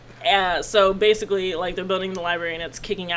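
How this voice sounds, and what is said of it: Usual voice. Nothing is said of it.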